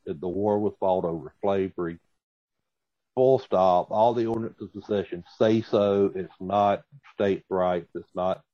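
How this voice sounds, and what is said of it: Southern American accent. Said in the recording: “Contrary to my accent, I am not an apologist for the South.”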